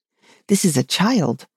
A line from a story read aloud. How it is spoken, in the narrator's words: Hayer replied eagerly